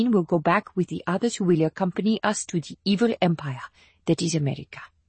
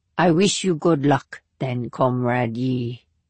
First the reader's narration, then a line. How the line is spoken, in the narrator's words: she said, though her tone contained nothing good